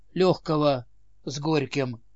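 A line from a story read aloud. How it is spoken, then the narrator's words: Glum fat man's reply. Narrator (Russian): уныло ответил толстяк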